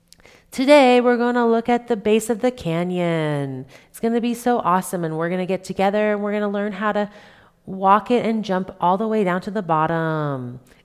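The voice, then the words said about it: Imitates a YouTube video gamer voice. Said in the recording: “doing this voice and I'm like, what is that voice from? That is so good ... that is the voice of the video gamers on YouTube”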